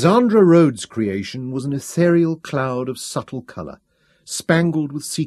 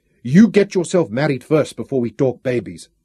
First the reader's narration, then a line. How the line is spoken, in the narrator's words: Nanny said sternly